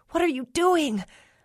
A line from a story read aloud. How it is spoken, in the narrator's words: choked, smoke stinging my eyes